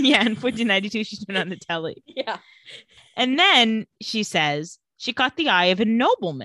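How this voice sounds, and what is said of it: Usual voice. Nothing is said of it.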